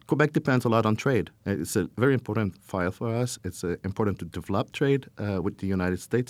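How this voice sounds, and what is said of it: French-accented English. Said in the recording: “there's a French language thing, as I can hear with my accent”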